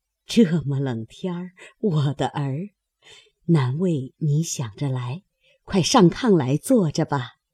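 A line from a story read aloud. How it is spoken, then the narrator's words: Laughing, affectionate. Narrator (Chinese): 薛姨妈 笑说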